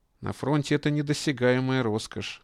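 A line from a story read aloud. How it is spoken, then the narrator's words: Sigh. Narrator (Russian): вздохнул Латышев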